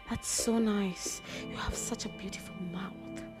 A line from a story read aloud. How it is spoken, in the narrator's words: said softly